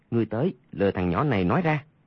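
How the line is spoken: Lowered voice. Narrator (Vietnamese): Bèn hạ giọng nói

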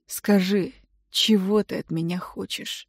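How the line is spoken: Hoarse voice. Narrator (Russian): Хриплый голос

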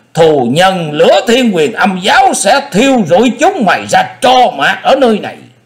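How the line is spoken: Screaming. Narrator (Vietnamese): Vị đầu thái tử đứng bên ngoài thét lên

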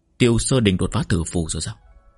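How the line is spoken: Soft chuckle. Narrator (Vietnamese): Trì Úy khẽ cười

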